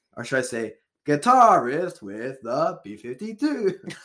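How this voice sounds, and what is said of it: Imitates another person's voice. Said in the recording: “That's my best B-52s. That's my best Keith Strickland impression.”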